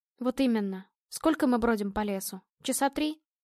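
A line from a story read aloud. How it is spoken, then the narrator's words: Sighing. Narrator (Russian): Он вздохнул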